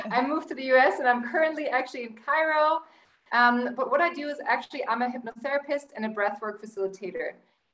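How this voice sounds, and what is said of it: Slight German accent. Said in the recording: “I was born and raised in Germany. You may hear from my accent a little bit.”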